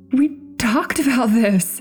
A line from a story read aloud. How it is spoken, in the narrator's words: she stuttered nervously